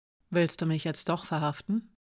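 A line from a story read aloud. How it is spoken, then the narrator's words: Dry question. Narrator (German): fragte sie trocken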